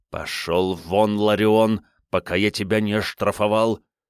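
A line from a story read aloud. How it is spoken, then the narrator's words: Commander hissing through teeth. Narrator (Russian): сквозь зубы прошипел командир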